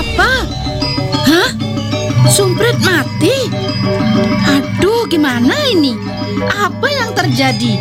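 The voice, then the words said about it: Shouting, panicked yelling. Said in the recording (Indonesian): “Kenapa teriak-teriak?”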